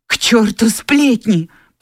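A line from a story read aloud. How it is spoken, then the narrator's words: Passionate exclamation. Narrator (Russian): пылко воскликнула она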